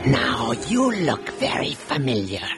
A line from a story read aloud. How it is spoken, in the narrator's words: he rasped